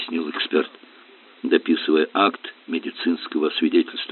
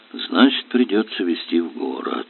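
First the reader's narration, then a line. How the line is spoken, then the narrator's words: Sigh. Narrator (Russian): вздохнул Горелов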